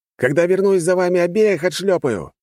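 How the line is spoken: Shouted. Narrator (Russian): выкрикнул я

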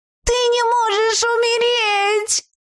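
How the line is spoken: Frenzied howl. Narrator (Russian): Взвыла лиса с совершенно обезумевшим взглядом

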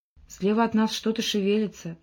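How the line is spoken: Whisper. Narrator (Russian): прошептал он

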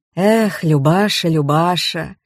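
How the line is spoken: Sorrowful sigh. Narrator (Russian): Горестно вздохнула Пелагея

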